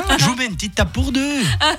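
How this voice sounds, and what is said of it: Put-on Italian accent. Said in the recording (French): “L'accent c'est ... tu parles pas italien ... le gars te répond avec l'accent”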